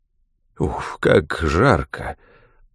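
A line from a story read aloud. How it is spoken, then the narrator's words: Weary puffing sigh. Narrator (Russian): устало отдуваясь, вздохнул граф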